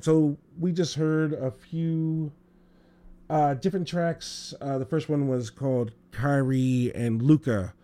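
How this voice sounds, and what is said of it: Strained, fading hoarse voice. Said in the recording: “I'm losing my voice, of course, due to allergies”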